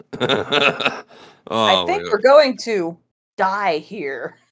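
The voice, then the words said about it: Imitates another person's voice, random pauses. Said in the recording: “his like speech pattern is just like how he just pauses randomly ... my Cody Rhodes impersonation”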